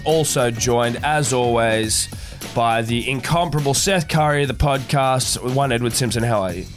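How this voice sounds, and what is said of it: Rough, unwell-sounding voice. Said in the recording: “you can hear in my voice, I'm a little underdone ... You sound like shit ... Sound like you've been hit by a truck, mate.”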